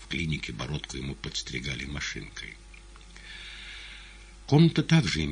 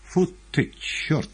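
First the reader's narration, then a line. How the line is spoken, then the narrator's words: Sudden exclamation. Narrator (Russian): неожиданно воскликнул мастер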